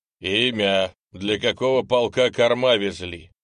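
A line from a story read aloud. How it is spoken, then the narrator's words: Loud question. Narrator (Russian): громко спросил милицкий лейтенант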